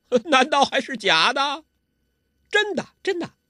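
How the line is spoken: Hearty laughter. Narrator (Chinese): 周伯通哈哈大笑

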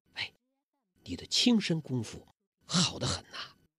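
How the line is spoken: Soft. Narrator (Chinese): 黄蓉轻声地说

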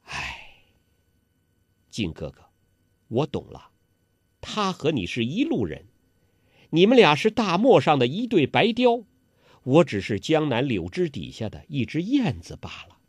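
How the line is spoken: Long sigh. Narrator (Chinese): 不由得叹了口长气

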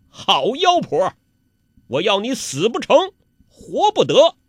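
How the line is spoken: Startled, furious. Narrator (Chinese): 欧阳克……又惊又怒

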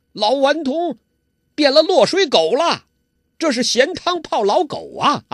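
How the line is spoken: Shouting. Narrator (Chinese): 周伯通叫

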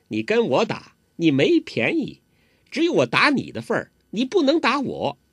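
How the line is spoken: Laughing. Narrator (Chinese): 黄蓉笑了

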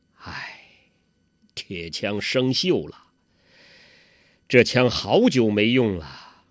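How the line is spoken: Sighing. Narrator (Chinese): 叹了口气

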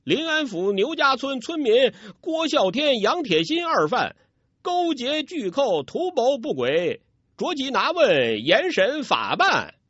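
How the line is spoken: Reluctant loud reading. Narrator (Chinese): 那武官无奈 大声朗读

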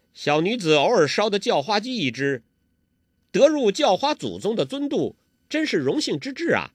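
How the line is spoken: Giggling. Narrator (Chinese): 黄蓉扑哧一笑

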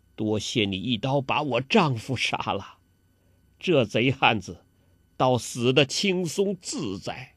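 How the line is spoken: Mournful bitter smile. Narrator (Chinese): 梅超风惨然一笑，跟郭靖说

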